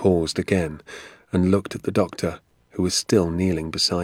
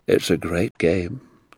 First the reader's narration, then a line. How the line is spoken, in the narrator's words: Doc Spencer said, sighing a little